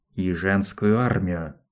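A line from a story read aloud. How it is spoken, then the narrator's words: Through clenched teeth. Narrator (Russian): процедил сквозь зубы Айдахо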